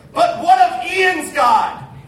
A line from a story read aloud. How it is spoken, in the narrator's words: the Petterboss sister screamed out